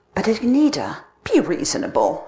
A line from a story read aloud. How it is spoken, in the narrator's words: pleaded